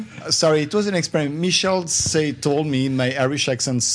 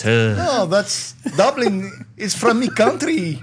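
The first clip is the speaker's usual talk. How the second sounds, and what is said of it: Poor put-on Irish accent. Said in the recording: “I can do an Irish accent, guys. ... That was terrible. ... That was awful. That was worse than my Irish accent. ... that's country Irish.”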